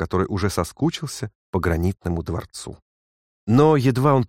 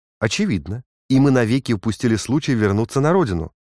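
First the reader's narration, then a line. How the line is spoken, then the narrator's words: Exclaiming. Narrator (Russian): воскликнул Наб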